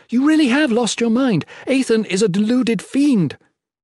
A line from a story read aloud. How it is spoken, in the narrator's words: she yelled